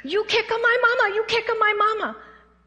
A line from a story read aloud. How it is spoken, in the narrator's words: 5 years old, screaming